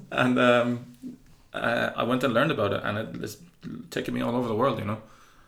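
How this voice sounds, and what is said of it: Irish Cork accent. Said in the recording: “people heard my accent ... I'm from Cork”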